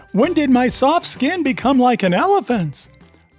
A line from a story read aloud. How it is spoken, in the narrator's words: you exclaim in horror